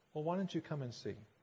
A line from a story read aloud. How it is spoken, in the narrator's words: Jesus responds gently